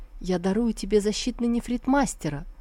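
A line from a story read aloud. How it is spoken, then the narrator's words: Sighing. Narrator (Russian): Шестой принц вздохнул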